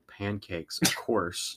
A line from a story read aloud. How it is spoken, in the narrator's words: Jason grumbled